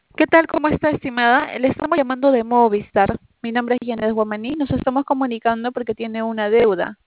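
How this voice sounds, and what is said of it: Childlike little-girl voice. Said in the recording (Spanish): “¿Por qué haces voz de niñita chica cuando hablas? ... ¿Por qué haces voz de niñita?”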